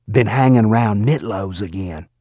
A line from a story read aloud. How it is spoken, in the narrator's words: someone whispered back